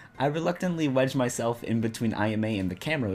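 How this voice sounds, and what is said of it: Usual voice. Nothing is said of it.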